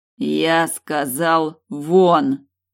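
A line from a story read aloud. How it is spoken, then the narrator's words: Growl through teeth. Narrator (Russian): рычу сквозь зубы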